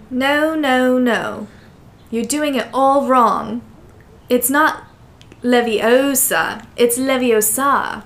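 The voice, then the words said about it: Put-on British accent. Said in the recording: “You did it in character ... You did a British accent.”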